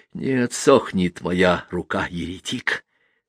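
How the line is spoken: Hissing whisper. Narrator (Russian): сказал он свистящим шепотом

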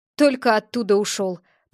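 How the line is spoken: Grumbling. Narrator (Russian): проворчал он

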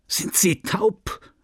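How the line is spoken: Man bellowing. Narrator (German): sagte Tüvache von seinem Lehnstuhl aufspringend, und er begann ihr ins Ohr zu brüllen

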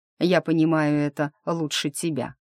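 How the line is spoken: Gloomy reply. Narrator (Russian): мрачно ответил

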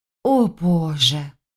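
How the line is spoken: Breathless exhale. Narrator (Russian): выдохнула Саша

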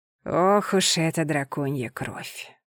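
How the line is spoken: Queen's sigh. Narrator (Russian): вздохнула Валарская королева

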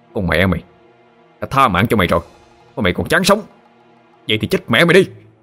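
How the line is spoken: Shouting. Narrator (Vietnamese): Thụy quát lên

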